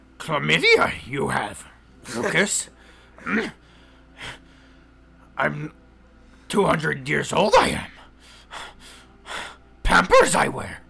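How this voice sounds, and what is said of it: Yoda character voice. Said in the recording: “That's my Yoda.”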